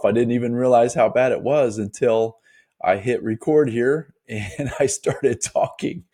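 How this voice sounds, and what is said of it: Scratchy, hoarse voice. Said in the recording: “My voice is going to be a little bit scratchy for this episode. A little bit under the weather ... I'm not sounding like my normal self”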